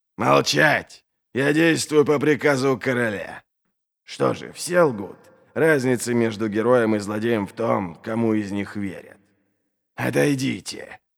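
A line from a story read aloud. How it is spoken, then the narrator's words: Hissing. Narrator (Russian): Прошипел он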